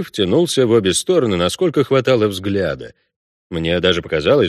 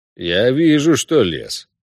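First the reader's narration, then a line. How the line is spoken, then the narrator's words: Grumbling. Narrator (Russian): проворчал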